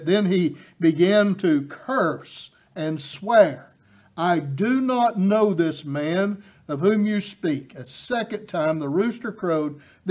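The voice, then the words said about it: East Tennessee accent. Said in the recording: “my accent betrays me. I'm from East Tennessee”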